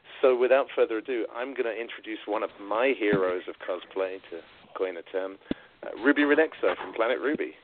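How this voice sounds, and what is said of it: Strong New York accent. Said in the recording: “you're a fellow New Yorker with me, as you can tell by the accent, right? ... you have uh, one of the most recognizable New York accents I've ever heard.”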